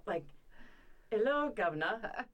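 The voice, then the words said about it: Weak put-on British accent. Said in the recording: “say in a British accent... British accent. That's it. Not my best one.”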